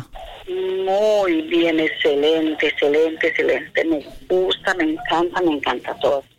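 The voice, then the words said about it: Colombian Spanish accent. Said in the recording (Spanish): “¿usted de dónde es que le escucho un acento diferente? ... Yo soy colombiana.”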